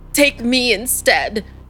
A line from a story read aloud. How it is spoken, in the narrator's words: he cried out, his voice cracking